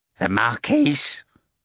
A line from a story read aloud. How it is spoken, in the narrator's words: muttered Kurovyov